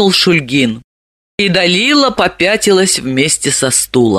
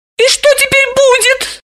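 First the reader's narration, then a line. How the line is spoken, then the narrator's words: Frightened squeak. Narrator (Russian): испуганно пропищала она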